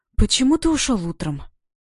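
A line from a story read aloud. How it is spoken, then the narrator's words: Breathless, daring question. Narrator (Russian): Выдохнула я, сама удивляясь, что нашла в себе смелость спросить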